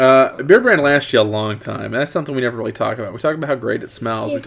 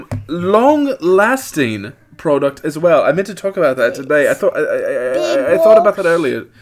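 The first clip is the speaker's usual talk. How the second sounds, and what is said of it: Slipping into an Irish accent. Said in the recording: “I was starting to break out into a more Irish accent there. ... I can't keep doing this accent.”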